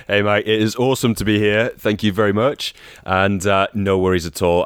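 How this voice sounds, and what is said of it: Northern English Manchester accent. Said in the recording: “As you can tell by ... accent ... What part of England are you from? ... I am from Manchester, Northern England.”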